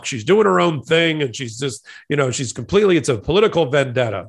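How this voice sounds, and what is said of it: Poor imitation of another person's voice. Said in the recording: “That was my Trump impression. ... That's not a very good Trump impression. ... I'm not good at Trump.”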